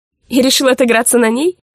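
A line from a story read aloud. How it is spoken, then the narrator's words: Smirking young woman. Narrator (Russian): хмыкнула девушка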